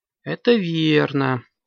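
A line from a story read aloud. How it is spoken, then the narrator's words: Sigh. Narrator (Russian): вздохнула мамаму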